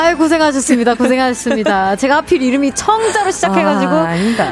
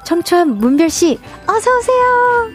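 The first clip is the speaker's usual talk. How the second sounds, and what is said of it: Soft, pure, innocent-sounding voice. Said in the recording (Korean): “제가 청초한 목소리로 모셔볼게요.”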